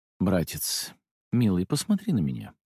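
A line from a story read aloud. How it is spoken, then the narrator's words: Sighing. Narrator (Russian): вздохнул я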